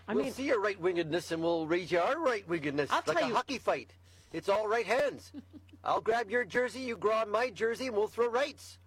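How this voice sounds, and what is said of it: Put-on Newfoundland accent. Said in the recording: “That's a very Newfoundland accent you're doing.”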